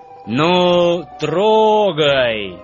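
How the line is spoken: Loud command. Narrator (Russian): громко скомандовал главный вожак

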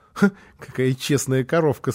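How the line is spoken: Laughing. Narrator (Russian): сказал он сквозь смех

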